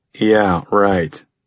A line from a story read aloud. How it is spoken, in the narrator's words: said sarcastically